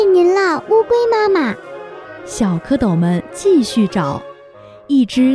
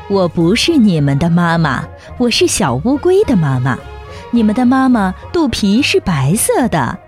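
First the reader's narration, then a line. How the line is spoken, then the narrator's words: Laughing. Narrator (Chinese): 大乌龟笑着说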